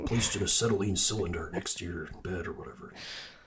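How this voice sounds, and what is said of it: Imitates a horror movie villain's voice. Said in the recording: “that your Jigsaw impression?”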